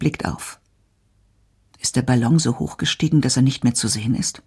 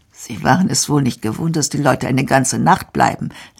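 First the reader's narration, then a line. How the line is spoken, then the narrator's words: Laughing. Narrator (German): lacht Hans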